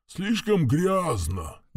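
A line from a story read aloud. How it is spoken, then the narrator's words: Muffled grumble. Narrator (Russian): глухо проворчал навигатор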